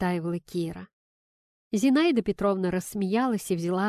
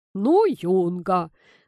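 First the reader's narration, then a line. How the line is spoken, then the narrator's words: Grumbling grandfather. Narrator (Russian): проворчал дедушка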